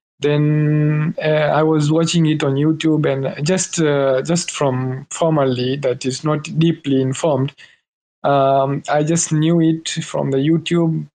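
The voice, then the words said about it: Tanzanian accent. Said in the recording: “my English is so not so good, because my accent is like it's like in Tanzanian”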